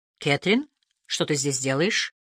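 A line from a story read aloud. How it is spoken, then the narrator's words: Plain. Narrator (Russian): спросил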